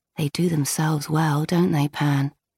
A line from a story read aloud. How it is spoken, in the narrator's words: she said under her breath